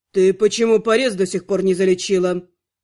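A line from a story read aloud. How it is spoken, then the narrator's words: Cold question. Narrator (Russian): холодно спросил тот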